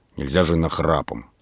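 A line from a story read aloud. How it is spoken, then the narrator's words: Angry. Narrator (Russian): сердито сказал Передонов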